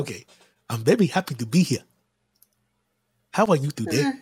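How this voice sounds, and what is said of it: Put-on foreign accent, still improving. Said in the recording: “my improving accent”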